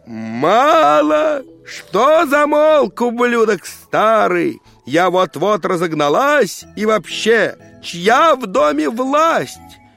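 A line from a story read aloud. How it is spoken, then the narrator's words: Old woman yelling. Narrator (Russian): Бабка ж заорала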